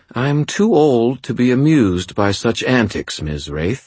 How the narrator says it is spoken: she replied calmly

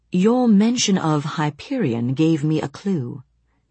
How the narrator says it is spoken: he said

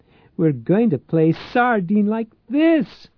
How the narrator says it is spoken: she cried

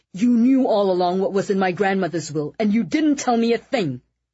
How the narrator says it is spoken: Eddie shouted

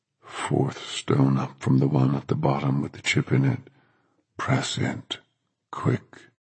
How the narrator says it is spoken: In a strange, deep voice that was nothing at all like his usual voice, but to Dennis that voice sounded weirdly familiar, Thomas said

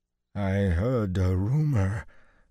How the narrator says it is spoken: Falloon said hoarsely

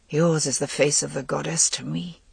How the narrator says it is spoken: He muttered

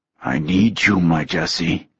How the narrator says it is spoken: Hunter growled

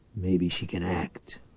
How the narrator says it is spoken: Powell muttered hopefully

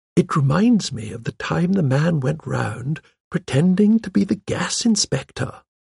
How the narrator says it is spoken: murmured Miss Marple

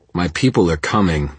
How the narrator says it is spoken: Parker growled

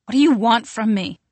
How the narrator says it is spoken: she asks suddenly, her voice strained and harsh

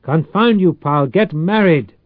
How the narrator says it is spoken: Tsung bellowed

